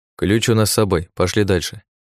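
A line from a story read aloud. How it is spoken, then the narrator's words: Cold. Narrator (Russian): холодно произнес я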